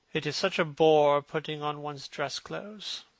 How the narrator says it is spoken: muttered Hallward

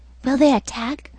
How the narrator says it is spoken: whispered an odd voice

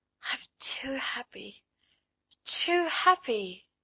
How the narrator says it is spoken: she murmured

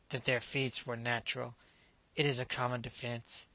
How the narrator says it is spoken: Knupf muttered

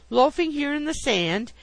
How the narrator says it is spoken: exclaimed

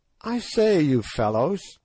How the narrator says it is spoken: said presently, in a constrained sort of voice

